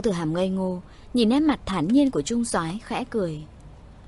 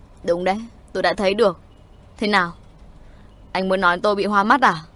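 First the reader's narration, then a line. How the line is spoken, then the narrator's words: Angry and hurt. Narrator (Vietnamese): trung soái vừa tức giận vừa đau lòng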